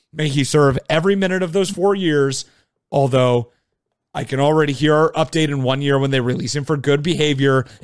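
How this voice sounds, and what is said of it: Gravelly voice, losing voice. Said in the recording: “this extremely gravelly episode ... I can feel myself losing my voice. ... Yeah, you're losing it.”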